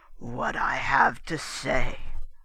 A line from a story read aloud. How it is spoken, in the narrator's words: Montelish rumbled